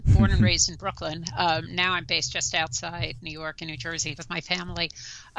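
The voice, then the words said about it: New York accent. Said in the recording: “I'm a native New Yorker. You probably tell from my accent”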